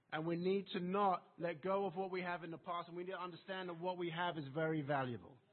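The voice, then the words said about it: English accent. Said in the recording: “coming from my English accent”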